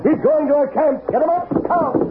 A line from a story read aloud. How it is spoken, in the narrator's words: the Lone Ranger shouted